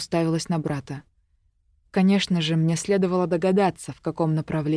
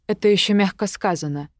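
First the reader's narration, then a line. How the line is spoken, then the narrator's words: Icy tone. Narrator (Russian): ледяным тоном произнесла я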